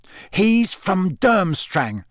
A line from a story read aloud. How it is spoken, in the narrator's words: spat Ron